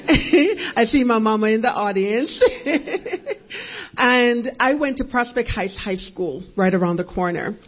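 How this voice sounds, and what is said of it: Jamaican accent. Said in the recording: “by way of Jamaica, if you hear an accent.”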